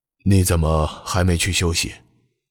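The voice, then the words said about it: Speaking softly, quiet voice. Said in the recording (Chinese): “小声应道”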